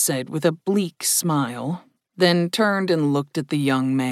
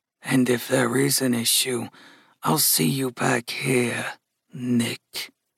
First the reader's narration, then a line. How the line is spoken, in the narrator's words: murmured Gus, unable to contain himself